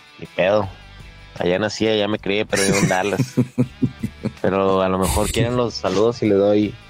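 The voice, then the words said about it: Northern Mexican Chihuahua accent. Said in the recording (Spanish): “mi acento de Chihuahua ... mi acentito”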